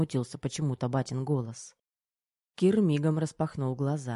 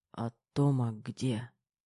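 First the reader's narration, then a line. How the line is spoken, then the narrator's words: Laboured mumble, young man. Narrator (Russian): с трудом промямлил парень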